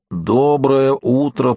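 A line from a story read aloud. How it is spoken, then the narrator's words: Tentative hoarse wheeze. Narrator (Russian): просипел Дунк, ну так, на пробу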